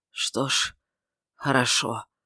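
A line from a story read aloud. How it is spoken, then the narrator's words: Weak, barely audible. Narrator (Russian): сказал он слабо, едва слышно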